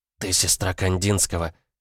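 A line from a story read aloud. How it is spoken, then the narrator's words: Breathless exhale. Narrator (Russian): выдохнула Шанти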